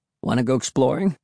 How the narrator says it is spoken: he asked in his hoarse voice

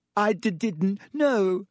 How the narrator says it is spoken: sobbed Ginny

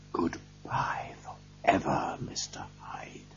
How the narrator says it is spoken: I whispered

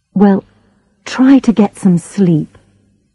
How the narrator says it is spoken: I said

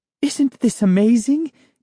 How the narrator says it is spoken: Neela cried excitedly

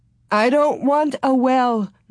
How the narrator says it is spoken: Ma sobbed

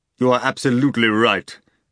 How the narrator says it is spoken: Voland shouted in a fearsome, hollow voice

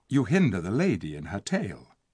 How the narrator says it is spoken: said Tyrion softly

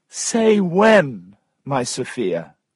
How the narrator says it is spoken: cried Tom

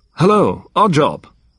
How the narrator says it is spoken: he said more loudly

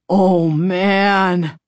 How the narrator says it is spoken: moaned

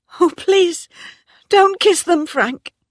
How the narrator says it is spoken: cried Bathsheba

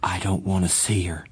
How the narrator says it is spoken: he said firmly

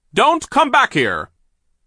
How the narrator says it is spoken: Sir yelled out after them

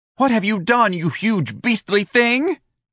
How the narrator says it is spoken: Dorian cried at Ignatius

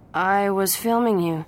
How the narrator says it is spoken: Dawson said

